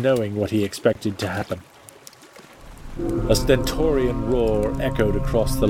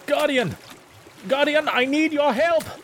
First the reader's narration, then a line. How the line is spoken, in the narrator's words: Trying desperately, Teague called out